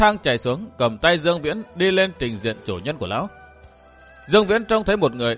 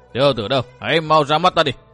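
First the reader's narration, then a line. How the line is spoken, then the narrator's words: Booming laughter. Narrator (Vietnamese): cất tiếng cười oang oang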